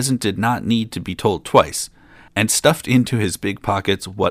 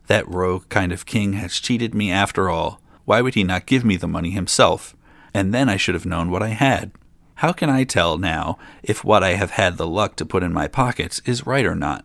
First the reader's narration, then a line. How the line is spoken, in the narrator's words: muttered to himself